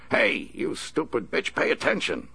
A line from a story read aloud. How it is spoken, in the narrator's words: Horton snapped